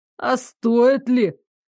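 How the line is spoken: Skeptical snort. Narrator (Russian): Дарек скептически хмыкнул

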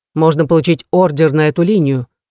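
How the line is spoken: Plain. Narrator (Russian): сказал Серано

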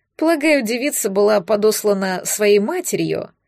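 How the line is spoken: Snort. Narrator (Russian): хмыкнул Рудольф

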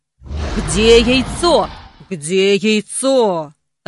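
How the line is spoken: Growling, dragon. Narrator (Russian): рычал дракон

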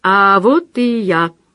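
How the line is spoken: Warm, heartfelt babble. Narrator (Russian): пролепетал задушевно опоздавший

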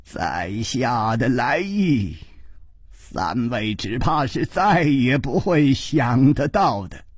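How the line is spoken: Smiling, amused. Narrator (Chinese): 这位剑法的名家已经笑着说

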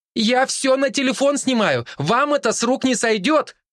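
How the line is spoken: Shouted. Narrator (Russian): прокричала Любава

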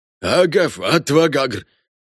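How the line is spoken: Nearby roar. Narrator (Russian): проревело совсем рядом

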